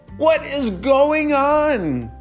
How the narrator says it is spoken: Glory shouted

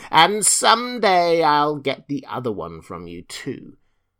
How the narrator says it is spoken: said the witch, laughing at her

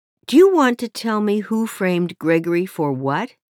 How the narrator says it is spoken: I asked

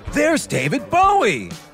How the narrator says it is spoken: he exclaimed

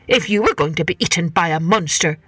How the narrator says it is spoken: said the head man crossly

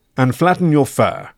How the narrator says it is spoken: commanded Sergeant Reski sharply

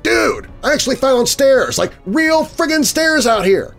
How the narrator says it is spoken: yelled

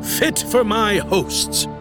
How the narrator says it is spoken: he boomed

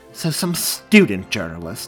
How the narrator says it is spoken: Graham spat, annoyed

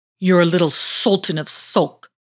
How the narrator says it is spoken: exclaimed the slippers angrily

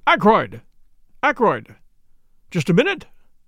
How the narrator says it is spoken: called out

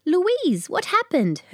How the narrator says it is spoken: her mother exclaimed

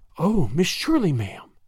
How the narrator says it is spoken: she breathed

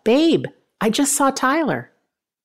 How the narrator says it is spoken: Tony yelled out

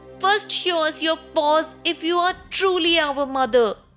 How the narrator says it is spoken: The little kids cried

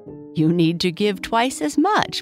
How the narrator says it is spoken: Boo Boo laughed

